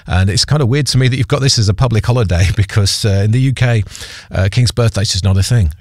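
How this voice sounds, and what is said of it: British accent. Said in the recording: “You may have gathered from my accent that I'm not from around these parts, so I am a Pom. I'm from the UK.”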